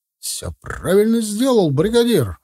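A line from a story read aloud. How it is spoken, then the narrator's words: Joyful exclamation. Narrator (Russian): воскликнул обрадованный Своров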